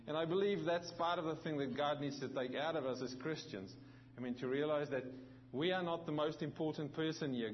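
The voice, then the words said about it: Mixed South African and New Zealand accent. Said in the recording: “my accent. I'm very aware that I have an accent ... when I'm with South Africans, they tell me I sound like a Kiwi. And when I'm with Kiwis, they tell me I sound like a South African”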